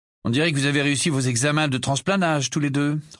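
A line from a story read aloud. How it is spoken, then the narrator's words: Grumpy. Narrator (French): remarqua Harry d'un ton grincheux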